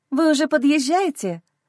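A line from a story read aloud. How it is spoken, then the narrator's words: Joyful, jubilant question. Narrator (Russian): Спрашиваю радостно, с ликованием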